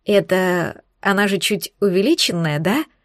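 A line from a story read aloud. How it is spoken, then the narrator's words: Shocked whisper. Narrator (Russian): Шепотом уточнила я, все еще шокированная поворотом событий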